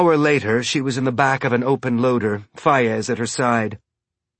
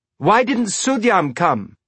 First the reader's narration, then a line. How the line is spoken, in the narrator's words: Elvie asked, shouting to be heard over the loader and the wind